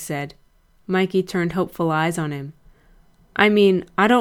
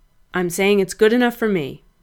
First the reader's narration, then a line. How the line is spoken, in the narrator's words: Frank said firmly